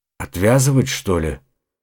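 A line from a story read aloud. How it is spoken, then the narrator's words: Muttering to himself. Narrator (Russian): пробормотал Остин, похоже, обращаясь к самому себе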